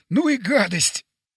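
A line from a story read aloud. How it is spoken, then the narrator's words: Strained, gasping for air. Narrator (Russian): выдавил я, хватая ртом воздух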